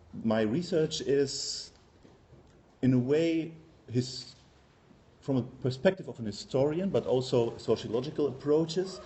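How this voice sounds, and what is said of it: German accent in English. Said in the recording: “as you can hear from my accent, I'm German by birth”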